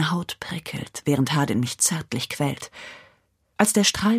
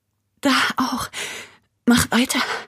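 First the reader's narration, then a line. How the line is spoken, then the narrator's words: Panting. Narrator (German): keuche ich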